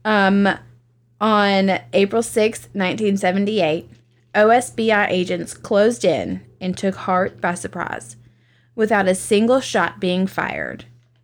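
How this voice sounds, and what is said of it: Southern American accent. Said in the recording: “Blame it on the Southern accent.”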